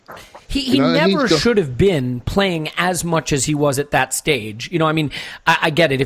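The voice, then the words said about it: American accent. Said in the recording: “you said it in a nice American accent.”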